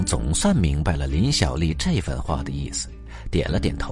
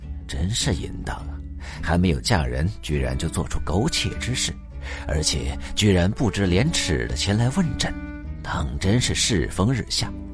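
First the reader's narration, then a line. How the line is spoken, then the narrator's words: Silent inner lament. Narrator (Chinese): 心中暗自感叹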